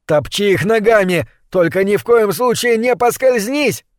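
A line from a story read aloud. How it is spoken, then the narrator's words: Shout. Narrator (Russian): крикнул он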